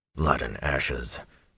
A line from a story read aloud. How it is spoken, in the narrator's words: Tom muttered